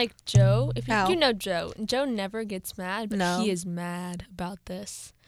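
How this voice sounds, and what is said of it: Usual voice. Nothing is said of it.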